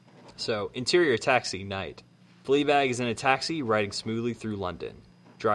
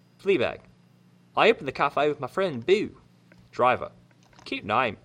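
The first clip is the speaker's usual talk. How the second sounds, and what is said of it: Put-on British accent. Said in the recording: “I'm going to revert now and do it in a British accent.”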